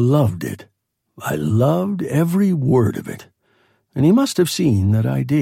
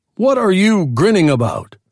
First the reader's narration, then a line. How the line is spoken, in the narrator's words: he barked